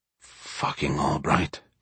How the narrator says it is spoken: he mumbled to himself

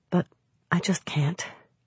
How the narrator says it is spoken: murmured breathlessly

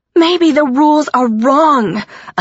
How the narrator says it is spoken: I screamed

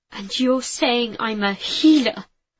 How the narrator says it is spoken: I nearly spat the word

